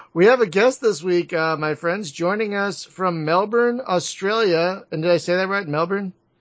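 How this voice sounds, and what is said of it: Raucous East Coast American accent. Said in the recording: “I'm very East Coast American, so I've got this kind of raucous American accent.”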